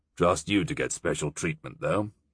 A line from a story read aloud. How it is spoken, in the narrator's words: he said in a studiously disinterested tone